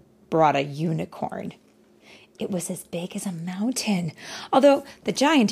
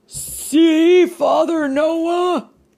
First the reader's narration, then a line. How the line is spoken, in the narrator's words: cried with a huge chuckle